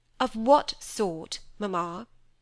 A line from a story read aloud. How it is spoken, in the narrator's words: said Cynthia sharply